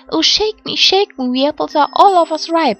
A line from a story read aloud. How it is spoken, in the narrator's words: the apple tree, who called out